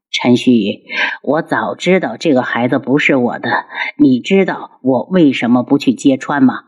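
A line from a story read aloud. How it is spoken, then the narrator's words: Mocking laughter. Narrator (Chinese): 他嘲弄的笑起来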